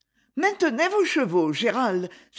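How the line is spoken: Urgent cry. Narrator (French): s'écria Lady Isabelle

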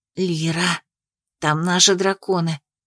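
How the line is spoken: Whispered call. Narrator (Russian): позвала Анна шепотом

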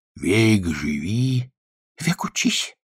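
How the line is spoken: Sighing. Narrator (Russian): вздохнул домовенок

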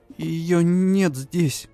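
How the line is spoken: Trembling voice. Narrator (Russian): дрогнувшим голосом поведала она

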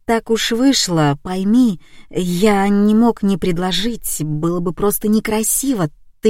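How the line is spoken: Embarrassed mumbling. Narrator (Russian): Олег слегка порозовел и принялся мямлить

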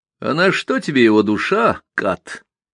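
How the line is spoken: Mocking question. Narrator (Russian): насмешливо спросил Сумароков

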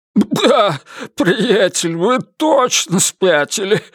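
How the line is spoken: Strained after laughing. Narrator (Russian): выдавил наконец Мальоре, закончив смеяться

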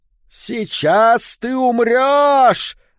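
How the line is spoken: Deep booming baritone shout. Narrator (Russian): закричала рыжая Молли глубоким баритоном, усиленным объемистыми легкими

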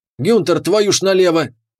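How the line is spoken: Yelled. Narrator (Russian): заорал капитан

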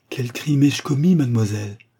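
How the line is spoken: Exalted exclamation. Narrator (French): s'écria-t-il d'un ton exalté

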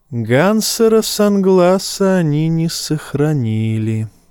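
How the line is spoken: Sigh. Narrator (Russian): вздохнула Мелисандра

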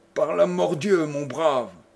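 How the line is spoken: Exclaimed. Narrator (French): s'écria le cavalier inconnu

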